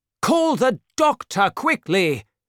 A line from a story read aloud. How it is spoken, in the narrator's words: cried Monsieur de Tréville